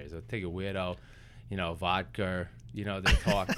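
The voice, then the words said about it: Put-on Boston accent. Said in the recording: “as my friends out of Boston would say ... do you do that pretty well, actually. That's a hard accent to do. ... they take A's and make R's out of them or something.”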